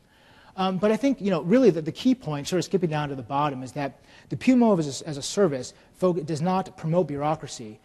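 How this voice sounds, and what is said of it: Fast-talking New York accent. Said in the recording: “having an American accent, but he said, no, it's a New York accent ... He does talk fast.”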